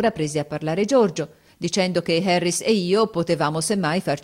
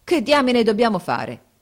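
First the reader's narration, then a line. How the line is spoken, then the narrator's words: Exclaiming. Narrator (Italian): esclamò Harris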